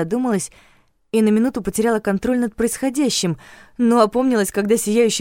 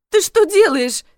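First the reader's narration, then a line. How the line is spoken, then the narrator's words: Yelling. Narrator (Russian): завопила я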